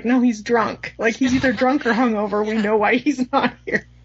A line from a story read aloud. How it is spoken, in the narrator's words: laughs and he's like